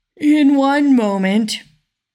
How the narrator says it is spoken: received for answer

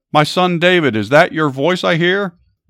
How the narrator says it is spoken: Saul yelled back

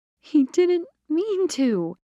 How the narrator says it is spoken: Tina whined

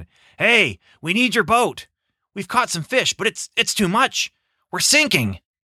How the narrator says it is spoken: shouted to his other partners, James and John

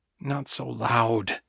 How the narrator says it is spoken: muttered

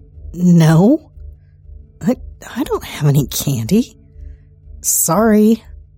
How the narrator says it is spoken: stammer

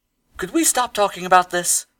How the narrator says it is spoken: Wood pleaded

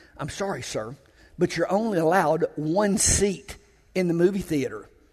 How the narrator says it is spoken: he whispered to the man

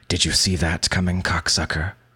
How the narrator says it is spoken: he hisses

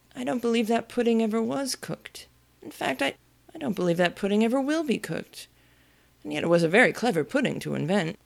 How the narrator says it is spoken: he went on, his voice getting lower and lower

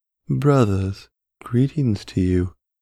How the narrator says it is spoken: the biped called out

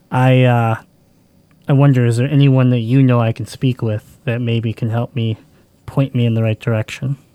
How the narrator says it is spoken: Percival sighs for a moment

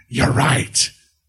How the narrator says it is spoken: Charlotte growled

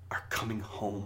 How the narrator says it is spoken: he growled

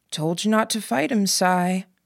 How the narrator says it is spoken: Gordon spoke, his voice soft but still carrying

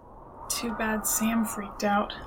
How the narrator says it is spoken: Jacob mutters bitterly

